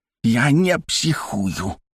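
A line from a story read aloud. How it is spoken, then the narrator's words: Cat hissing. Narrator (Russian): прошипел кот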